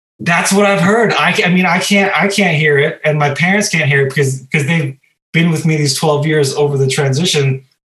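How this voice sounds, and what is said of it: Slight foreign accent, tonal and clipped. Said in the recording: “you do have a slight accent ... I can hear that it's a tonal thing, perhaps more than anything, and a clip. And there's a clip in it as well.”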